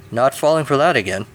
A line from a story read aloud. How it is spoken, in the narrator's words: Lancelot chuckled